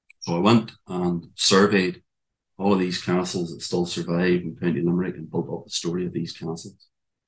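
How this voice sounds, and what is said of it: Speaker's own regional accent. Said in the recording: “with my accent, it comes across as tower houses”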